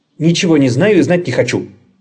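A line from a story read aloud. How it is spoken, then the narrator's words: Angry female hare. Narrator (Russian): сердито ответила зайчиха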